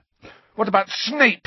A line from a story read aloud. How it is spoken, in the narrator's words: Harry spat